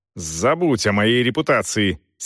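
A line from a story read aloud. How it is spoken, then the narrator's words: Angry bark. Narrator (Russian): сердито рявкнул Селдон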